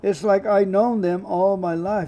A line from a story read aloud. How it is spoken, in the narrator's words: he said